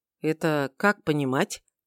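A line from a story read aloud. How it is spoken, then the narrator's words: Quiet question. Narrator (Russian): тихо осведомился я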